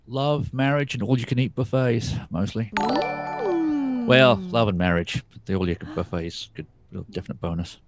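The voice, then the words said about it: English accent. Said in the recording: “British, specifically English ... You haven't lost your accent.”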